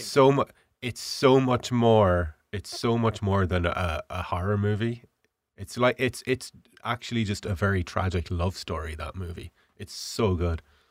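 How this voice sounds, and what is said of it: Rough, sick-sounding voice. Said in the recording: “my voice is really bad today. I've been dying of the flu for the last week”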